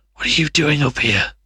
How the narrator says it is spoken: She panted

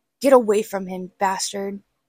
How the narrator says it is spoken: I snapped

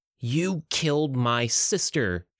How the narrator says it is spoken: she spat

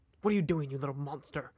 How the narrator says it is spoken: Victor snarled

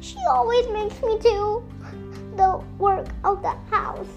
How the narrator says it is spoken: she sobbed

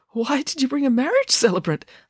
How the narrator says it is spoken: asked Dad nervously

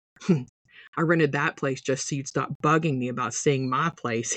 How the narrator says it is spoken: he said with a chuckle

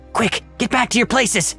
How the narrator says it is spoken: Malcott whispered frantically down to the others

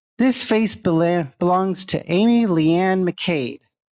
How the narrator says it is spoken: called out

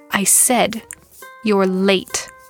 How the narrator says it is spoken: he snarled

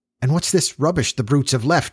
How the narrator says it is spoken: he cried

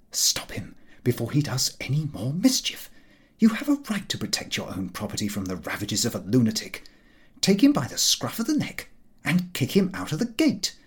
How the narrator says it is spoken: Common sense continued to whisper

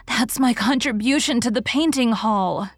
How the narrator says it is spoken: gasped

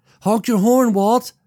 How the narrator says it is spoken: shouted at Walt

